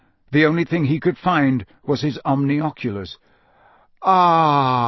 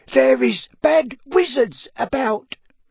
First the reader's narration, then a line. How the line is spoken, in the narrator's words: she squeaked distractedly as she leaned forward and labored to keep running